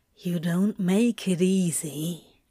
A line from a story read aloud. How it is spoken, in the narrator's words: Crowley growled softly